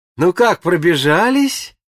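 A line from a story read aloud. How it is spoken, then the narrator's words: Joyful greeting. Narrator (Russian): встретила нас радостно Анюта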